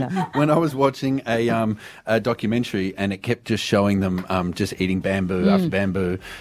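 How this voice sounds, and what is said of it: Usual voice. Nothing is said of it.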